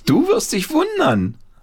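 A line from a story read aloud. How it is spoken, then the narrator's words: Calling out. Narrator (German): rief Paul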